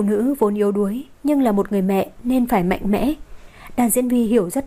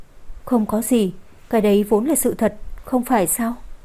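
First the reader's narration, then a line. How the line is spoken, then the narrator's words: Gentle speech. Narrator (Vietnamese): Cô Dương nhẹ nhàng nói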